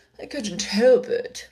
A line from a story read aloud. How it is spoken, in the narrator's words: said Five in a sulky tone